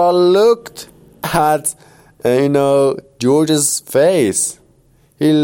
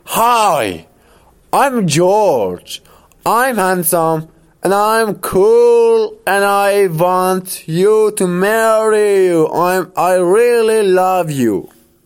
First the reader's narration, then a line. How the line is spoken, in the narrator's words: Immediately, George shouted